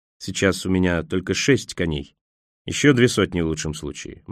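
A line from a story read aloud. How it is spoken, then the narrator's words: Grim, smiling. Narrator (Russian): мрачно улыбнулся Николас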